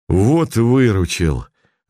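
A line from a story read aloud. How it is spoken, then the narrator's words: Joyful. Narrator (Russian): радостно сказал боец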